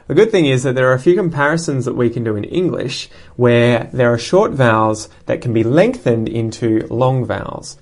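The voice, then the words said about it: Australian English accent. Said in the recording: “in Australian English, at least, based on my accent”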